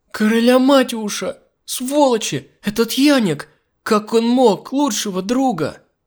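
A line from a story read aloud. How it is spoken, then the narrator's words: Sobbing. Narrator (Russian): Рыдала Миранда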